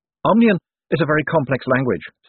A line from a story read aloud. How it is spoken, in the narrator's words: said Adora Bell quickly